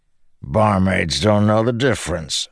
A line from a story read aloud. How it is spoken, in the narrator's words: Bashan grumbled